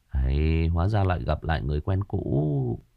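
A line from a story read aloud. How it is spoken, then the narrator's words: Smirking mutter. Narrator (Vietnamese): đại ca Dương Tài nhếch lên một nụ cười, đoạn gã lẩm bẩm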